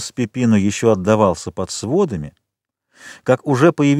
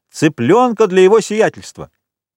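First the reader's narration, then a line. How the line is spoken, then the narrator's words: Full-throated shout. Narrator (Russian): Пепино крикнул во все горло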